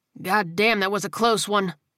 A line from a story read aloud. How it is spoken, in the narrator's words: the sergeant muttered, letting out a deep whoosh of breath